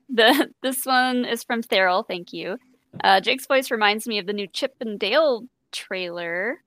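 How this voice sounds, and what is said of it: Slightly raspy voice. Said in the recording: “My voice gets a ... little raspy.”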